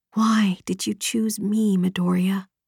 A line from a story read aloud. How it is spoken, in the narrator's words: whispered